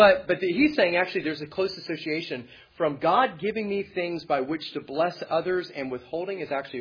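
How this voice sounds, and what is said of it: Usual voice. Nothing is said of it.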